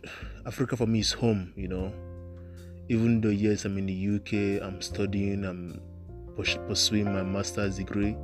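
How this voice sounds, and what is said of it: Nigerian accent. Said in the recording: “My accent as well is still Nigerian. My accent has not changed yet to that of the British.”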